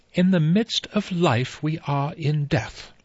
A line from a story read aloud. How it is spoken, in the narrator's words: Emily Brent said in a clear voice